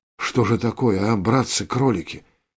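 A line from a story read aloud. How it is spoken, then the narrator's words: Whisper. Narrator (Russian): прошептал Виктор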